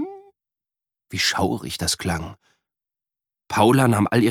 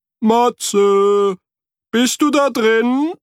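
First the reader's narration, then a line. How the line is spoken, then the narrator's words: Echoing call. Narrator (German): rief Frederik und hörte ein Echo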